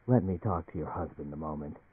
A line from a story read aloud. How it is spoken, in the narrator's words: Eldritch said to Emily in a peculiarly gentle voice